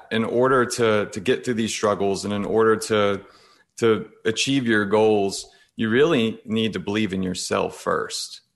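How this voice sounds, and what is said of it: Mild Southern US accent. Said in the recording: “I absolutely love your accent ... I don't know many people from the South, but now with it's not super heavy”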